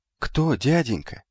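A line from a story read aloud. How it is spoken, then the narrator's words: Timid young boy asking. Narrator (Russian): робко поинтересовался сидевший рядом с телемом юноша, почти мальчик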